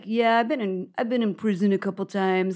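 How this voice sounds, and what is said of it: Bad put-on French accent. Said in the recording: “that's my bad French accent.”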